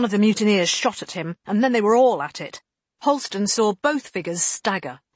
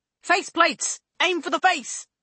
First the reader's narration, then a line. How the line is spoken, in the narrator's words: Scholes shouted